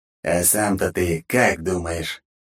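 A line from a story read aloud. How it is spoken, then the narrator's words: Mocking. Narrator (Russian): насмешливо ответил голос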